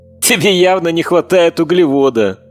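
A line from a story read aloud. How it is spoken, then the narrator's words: Cheerful young woman. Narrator (Russian): весело сказала девушка с глазами цвета печеного каштана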